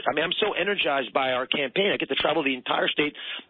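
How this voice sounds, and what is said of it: Slightly hoarse voice. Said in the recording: “You can tell I'm a bit hoarse from talking so much.”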